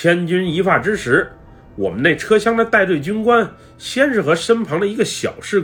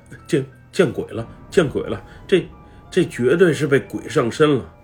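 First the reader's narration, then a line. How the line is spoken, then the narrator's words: Frightened muttering. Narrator (Chinese): 一个小哥更是惊魂落魄的小声嘀咕道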